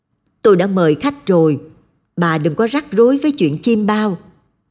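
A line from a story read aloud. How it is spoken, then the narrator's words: Shouting. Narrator (Vietnamese): Ông Mười ... quát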